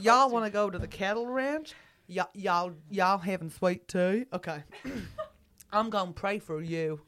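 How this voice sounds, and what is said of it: Put-on Texan accent. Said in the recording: “one more accent? ... Texan.”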